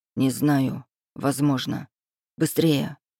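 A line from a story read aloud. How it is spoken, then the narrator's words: Whisper. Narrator (Russian): шепнул он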